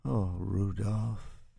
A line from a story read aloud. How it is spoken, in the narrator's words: Isabel says, and her voice is suddenly deep and soft